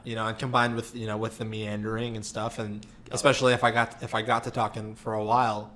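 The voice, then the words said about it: Mild Texan Southern drawl. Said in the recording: “they go, Texas? ... they go like South ... I don't have this like, you know, ridiculous accent or even, I don't even have that thick of a drawl”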